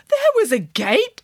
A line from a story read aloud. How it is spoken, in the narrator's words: gasped Nanny Piggins